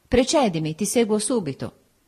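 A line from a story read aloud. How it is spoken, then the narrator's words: Firm voice. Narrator (Italian): Mi diceva con la sua voce soda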